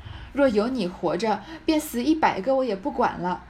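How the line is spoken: Crying wail. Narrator (Chinese): 叫着贾珠哭道

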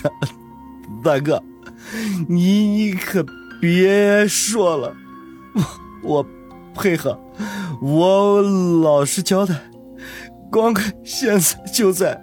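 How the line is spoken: Tearful, frightened stammer. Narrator (Chinese): 带着哭腔说道

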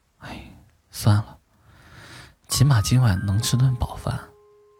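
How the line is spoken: Sighing, inner thought. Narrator (Chinese): 叹了口气，心想

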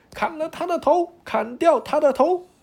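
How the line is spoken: Loud roaring. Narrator (Chinese): 他 大声的吼叫起来

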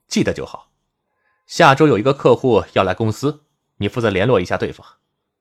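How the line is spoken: Calm, faint smile. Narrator (Chinese): 包瑞杰淡淡的笑了，说

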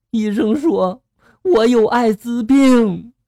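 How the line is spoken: Crying. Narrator (Chinese): 女的哭着就说了

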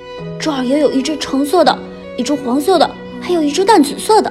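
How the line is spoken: Cheerful little girl calling. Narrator (Chinese): 小熊妹妹欢快地叫着

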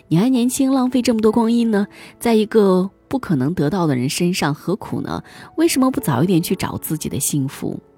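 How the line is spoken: Sighing exclamation. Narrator (Chinese): 我忍不住感叹

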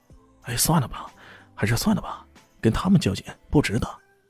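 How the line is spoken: Nervous low voice. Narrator (Chinese): 伟根有些紧张的拉了拉李炫，低声说道

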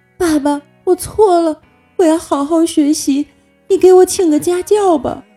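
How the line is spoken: Crying. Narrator (Chinese): 李大脚哭着说

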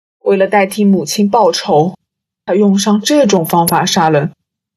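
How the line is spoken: Murmuring to self. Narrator (Chinese): 若督察喃喃自语

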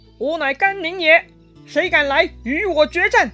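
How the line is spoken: General shouting loudly. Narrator (Chinese): 江东军队为首的一员大将 大喊

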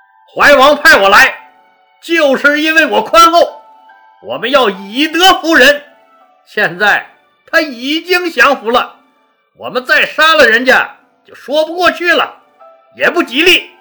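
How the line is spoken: Loud voice. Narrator (Chinese): 大声地说

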